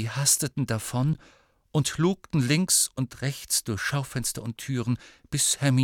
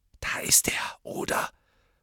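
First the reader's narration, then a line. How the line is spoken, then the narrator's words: Whispered. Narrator (German): flüsterte sie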